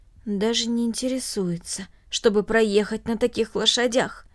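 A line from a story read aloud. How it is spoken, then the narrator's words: Added in undertone. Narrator (Russian): Затем он добавил вполголоса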